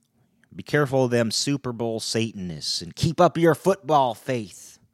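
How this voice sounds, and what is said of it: A put-on accent. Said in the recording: “when I do the accents”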